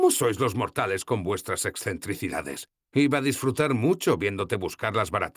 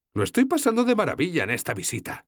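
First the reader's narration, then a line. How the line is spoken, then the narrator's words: Exclaiming. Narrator (Spanish): exclamé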